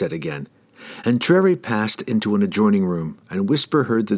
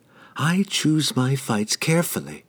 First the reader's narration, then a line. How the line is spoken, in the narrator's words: she whispered to the emptiness of the room, regaining a measure of her pride